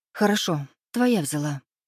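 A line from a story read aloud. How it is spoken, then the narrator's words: Gloomy. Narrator (Russian): мрачно произнесла Аленка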